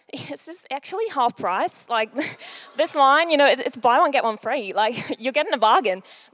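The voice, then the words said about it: Unconvincing put-on Australian accent. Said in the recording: “my probably very unconvincing Australian facade ... I couldn't stop doing the accent”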